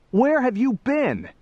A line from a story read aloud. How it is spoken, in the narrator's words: cried